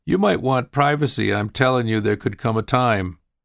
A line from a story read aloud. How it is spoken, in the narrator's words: Angela laughed as she pointed it out, saying